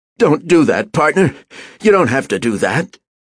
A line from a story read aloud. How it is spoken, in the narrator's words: An old man's voice pleaded